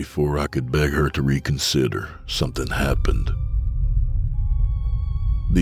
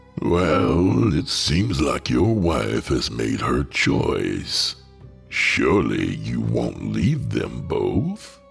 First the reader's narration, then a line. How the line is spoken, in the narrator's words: He started to chuckle